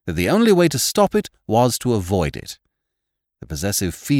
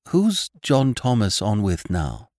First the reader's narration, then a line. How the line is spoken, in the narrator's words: softly